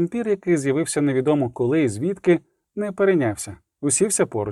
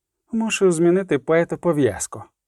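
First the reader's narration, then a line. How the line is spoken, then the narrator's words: Calm voice. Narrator (Ukrainian): сказав спокійно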